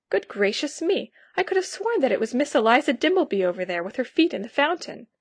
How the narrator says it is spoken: Here I interrupted myself to exclaim

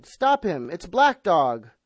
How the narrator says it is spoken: I cried

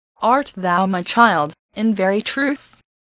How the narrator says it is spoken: asked Hester

